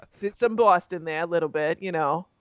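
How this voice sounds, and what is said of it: Boston accent. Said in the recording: “Oh, there's the accent.”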